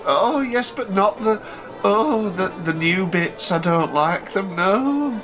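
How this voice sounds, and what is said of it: Imitates an old woman's voice. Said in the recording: “That's my impression of my auntie Winnie, just so you know. She spoke exactly like... She was quite old”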